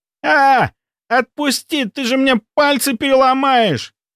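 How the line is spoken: Yelled in pain. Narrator (Russian): заорал он

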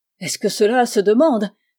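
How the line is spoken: Mother's rapturous exclamation. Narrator (French): s'écria la mère avec transport

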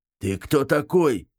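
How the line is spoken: Rude question. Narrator (Russian): грубо спросил он

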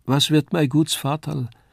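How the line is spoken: Slurred speech. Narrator (German): lallte sie noch

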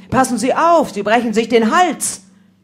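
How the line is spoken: Calling out warning. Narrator (German): Ich rief ihm zu

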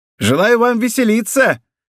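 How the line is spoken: Shouted with bitter irony. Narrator (Russian): крикнул ему вслед Бонасье со злой иронией в голосе

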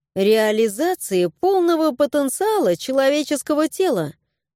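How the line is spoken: Calm. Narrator (Russian): спокойно ответила я

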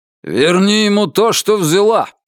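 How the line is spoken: Barking into ear. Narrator (Russian): рявкнул он ей в ухо

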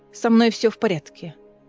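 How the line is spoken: Cold. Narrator (Russian): холодно ответила она

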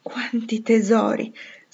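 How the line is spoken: Satisfied sigh. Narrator (Italian): sospirava con aria molto soddisfatta

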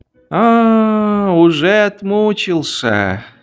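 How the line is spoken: Sighing soldier. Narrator (Russian): вздохнул бравый солдат Швейк

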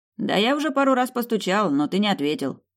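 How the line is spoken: Friend's snort. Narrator (Russian): хмыкнул друг

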